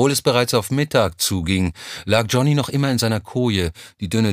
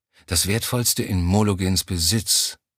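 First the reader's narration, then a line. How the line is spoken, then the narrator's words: Murmured to himself. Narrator (German): murmelte er vor sich hin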